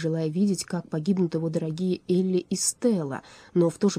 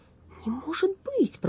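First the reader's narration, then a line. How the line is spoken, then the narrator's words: Mumbled. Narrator (Russian): пробормотал Страшила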